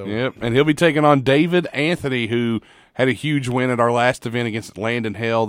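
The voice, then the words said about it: Hoarse, worn-out voice. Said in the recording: “you horse, you sound like you've been calling MMA fights ... apologize for my voice. My voice is shot today”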